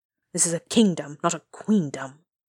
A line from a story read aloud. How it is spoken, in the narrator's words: he grumbled, but the anger seemed to have gone out of him